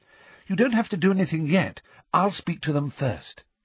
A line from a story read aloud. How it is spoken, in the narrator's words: she added quickly